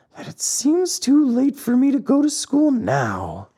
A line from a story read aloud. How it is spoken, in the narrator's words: whined the marionette in a whisper